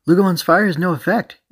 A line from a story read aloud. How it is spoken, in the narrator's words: AG cried in disappointment